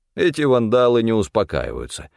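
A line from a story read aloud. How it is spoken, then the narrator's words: Snorting. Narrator (Russian): хмыкнул Стефан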